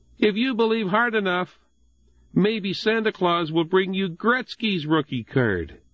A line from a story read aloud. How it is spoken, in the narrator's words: Jonathan called out to him